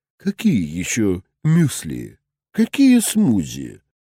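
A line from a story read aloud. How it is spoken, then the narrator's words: Sarcastic low drawl. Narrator (Russian): протянула она ехидным баском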